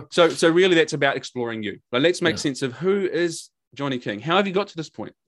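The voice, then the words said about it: New Zealand accent. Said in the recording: “my Kiwi accent sometimes rolls it together and people have no fucking idea what I just said”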